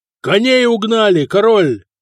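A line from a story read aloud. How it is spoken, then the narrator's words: Big man shouting. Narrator (Russian): крикнул здоровенный бавар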